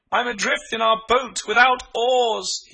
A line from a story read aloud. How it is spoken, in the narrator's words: he cried